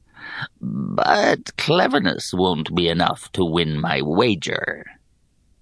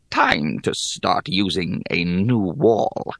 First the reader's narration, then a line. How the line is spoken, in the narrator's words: she grumbled